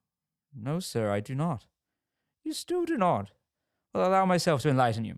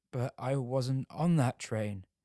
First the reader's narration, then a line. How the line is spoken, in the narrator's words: stuttered Muller